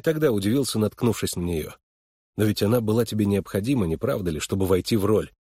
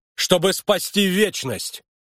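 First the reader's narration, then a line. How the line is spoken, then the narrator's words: Sudden yell. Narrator (Russian): неожиданно заорал Харлан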